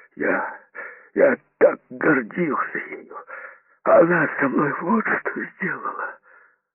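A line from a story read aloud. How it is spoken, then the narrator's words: Sob-like sound. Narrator (Russian): Звук, похожий на рыдание, вырвался из его груди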